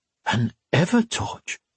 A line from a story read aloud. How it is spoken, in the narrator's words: he breathed